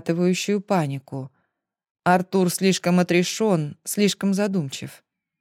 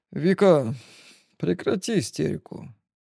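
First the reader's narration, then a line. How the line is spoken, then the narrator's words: Tired. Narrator (Russian): устало произносит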